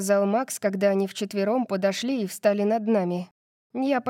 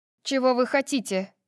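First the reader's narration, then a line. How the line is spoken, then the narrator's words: Cold question. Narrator (Russian): холодно спросила я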